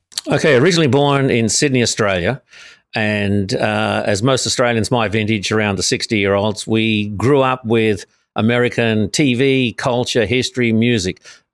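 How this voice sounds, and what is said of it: Australian accent. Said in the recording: “based on your accent, you're not from LA”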